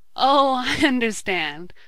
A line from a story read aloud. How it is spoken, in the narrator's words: laughed Ned